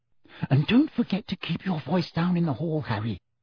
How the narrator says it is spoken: Hermione whispered

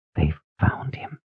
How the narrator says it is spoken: She whispered

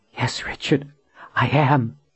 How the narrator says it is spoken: she whispered

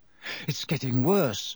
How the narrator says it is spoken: Harry muttered, biting off the frog's head

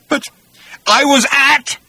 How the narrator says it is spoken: roared Agrajack

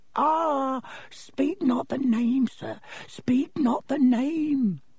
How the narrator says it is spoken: moaned

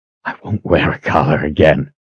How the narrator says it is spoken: whispered to no one but himself

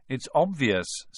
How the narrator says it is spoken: said Ron

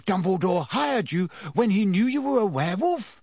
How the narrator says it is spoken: Ron gasped

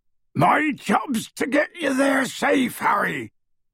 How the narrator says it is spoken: bellowed Hagrid

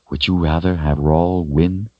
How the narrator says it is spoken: asked quietly

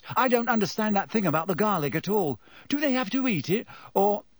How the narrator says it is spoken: He broke off with a small gasp

